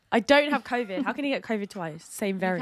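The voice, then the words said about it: Husky, hoarse voice. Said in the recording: “my voice is really husky right now after coughing all day”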